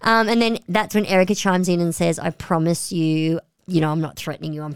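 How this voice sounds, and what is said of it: Usual voice. Nothing is said of it.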